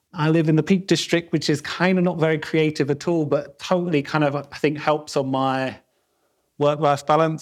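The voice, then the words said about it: South London accent. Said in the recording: “I'm South London born and bred, as you can probably tell from my accent.”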